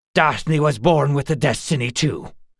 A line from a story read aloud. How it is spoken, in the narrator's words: he said fiercely